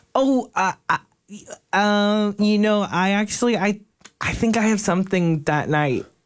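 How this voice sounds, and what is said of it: Reluctant, evasive character voice. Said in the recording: “my impression of someone who got asked out on a date but doesn't want to go”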